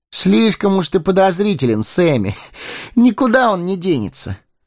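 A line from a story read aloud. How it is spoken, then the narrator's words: Laughing. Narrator (Russian): рассмеялся Фродо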